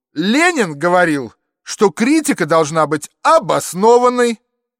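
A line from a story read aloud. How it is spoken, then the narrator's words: Fairly loud shout. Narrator (Russian): довольно громко крикнул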